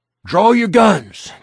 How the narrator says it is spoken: Gilstrap panted

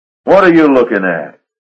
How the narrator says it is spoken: he barked at the deckhand

